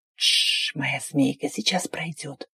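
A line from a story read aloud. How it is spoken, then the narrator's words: Hot soothing whisper. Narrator (Russian): Жарко зашептал, успокаивая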